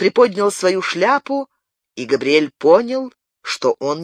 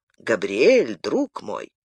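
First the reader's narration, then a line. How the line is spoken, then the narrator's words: Quiet call. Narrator (Russian): Незнакомец же тихо окликнул его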